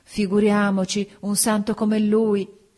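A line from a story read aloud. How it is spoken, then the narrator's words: Women exclaiming. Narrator (Italian): Le donne esclamarono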